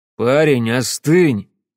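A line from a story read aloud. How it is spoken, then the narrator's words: Menacing. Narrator (Russian): грозно проговорил О'Горман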